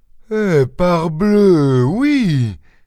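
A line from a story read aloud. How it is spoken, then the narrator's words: Farmer exclaiming. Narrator (French): s'écria le fermier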